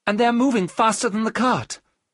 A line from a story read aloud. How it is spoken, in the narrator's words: Mina cried